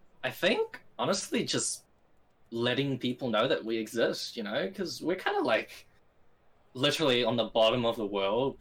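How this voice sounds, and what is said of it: New Zealand accent. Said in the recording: “I like your accent. Where are you from? I'm like, New Zealand.”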